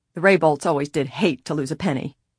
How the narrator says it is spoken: the manufacturer grunted

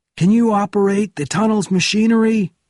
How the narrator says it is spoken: Bourne shouted

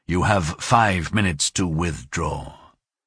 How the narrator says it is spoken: the captain said in a low voice that was slow and a little tired

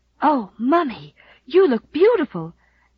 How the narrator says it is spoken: gasped Rilla in round-eyed admiration

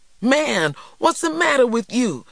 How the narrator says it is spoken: TJ cried

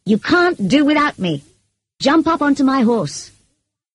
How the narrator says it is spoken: shouted

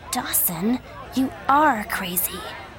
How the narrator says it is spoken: Joey said quietly

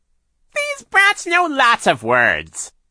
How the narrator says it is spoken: Shirley said in her ridiculously fake high voice

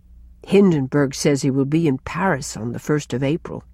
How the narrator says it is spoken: sighed Cousin Sophia

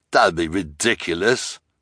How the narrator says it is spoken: the hook-handed man said with a sneer

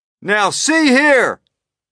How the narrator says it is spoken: shouted the chief of police, cupping his hands to his mouth

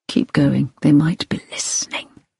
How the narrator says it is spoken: Hilary heard him whisper

